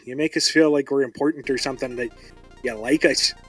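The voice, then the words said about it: Put-on Canadian accent. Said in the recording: “I don't know why I'm lapsing into this accent. Maybe it's all the Canadian folksiness up here”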